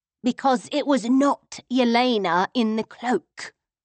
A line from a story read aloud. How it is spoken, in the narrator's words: she said, her voice dropping to a thrilled whisper